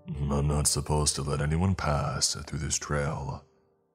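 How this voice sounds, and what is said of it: Deep character voice. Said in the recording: “it told us in its deep voice.”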